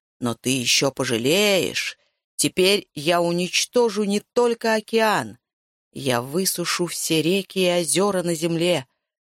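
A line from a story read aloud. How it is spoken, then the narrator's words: Growling. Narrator (Russian): рычал он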